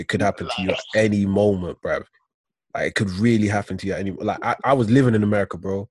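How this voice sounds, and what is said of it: British accent. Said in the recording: “my accent. I'm British.”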